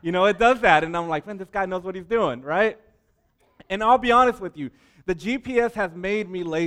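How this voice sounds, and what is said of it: Usual voice. Nothing is said of it.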